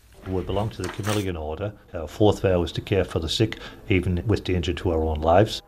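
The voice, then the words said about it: Slight Newcastle English accent. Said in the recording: “He's originally from Newcastle in England. You'll hear it a little bit in the accent.”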